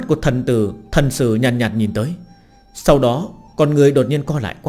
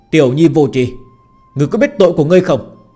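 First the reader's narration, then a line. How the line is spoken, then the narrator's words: Thunderous divine anger. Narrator (Vietnamese): Thần sử giận dữ, thiên địa biến sắc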